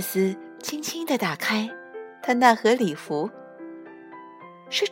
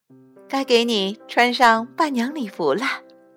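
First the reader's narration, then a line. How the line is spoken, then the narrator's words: Teacher, laughing. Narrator (Chinese): 老师笑着说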